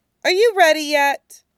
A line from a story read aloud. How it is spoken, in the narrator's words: Sui Zhou laughs at the challenge, soft and voiceless